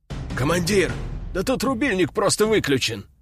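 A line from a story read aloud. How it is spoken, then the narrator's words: Exclaimed. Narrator (Russian): воскликнул он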